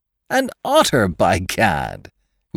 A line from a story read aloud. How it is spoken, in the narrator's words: we exclaimed in the same breath, laughing